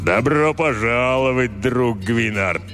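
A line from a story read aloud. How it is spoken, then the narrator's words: Booming voice. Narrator (Russian): прогудел он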